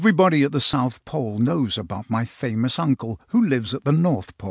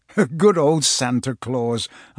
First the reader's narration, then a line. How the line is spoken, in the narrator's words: I chuckled